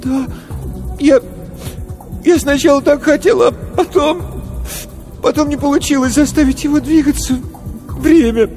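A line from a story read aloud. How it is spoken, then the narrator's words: Sobbing. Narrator (Russian): Корвин всхлипнул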